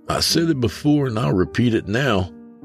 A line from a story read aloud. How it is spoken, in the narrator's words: Broderick chuckled